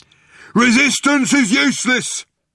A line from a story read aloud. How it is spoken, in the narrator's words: bellowed the guard